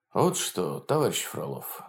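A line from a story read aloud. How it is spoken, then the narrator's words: Calm and quiet. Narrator (Russian): спокойно и тихо сказал он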